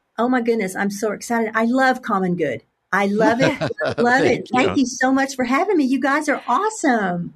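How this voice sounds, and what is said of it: Southern American drawl. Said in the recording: “that's not a Chicago accent ... a good Southern draw ... why I speak like I do”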